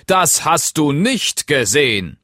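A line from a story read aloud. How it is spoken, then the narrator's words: King's angry shout. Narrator (German): schrie der König zornig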